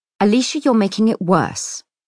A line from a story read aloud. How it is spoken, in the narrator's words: Monkford says sharply